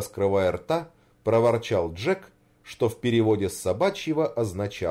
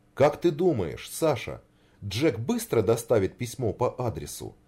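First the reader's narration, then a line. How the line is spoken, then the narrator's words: Plain. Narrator (Russian): спросил Рябинкин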